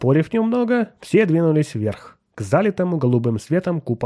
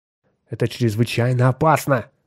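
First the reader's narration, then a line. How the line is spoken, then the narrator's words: Muttering. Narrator (Russian): пробормотал Ньютон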